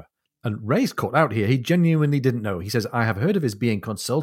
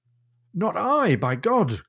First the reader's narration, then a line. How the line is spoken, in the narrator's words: cried Ray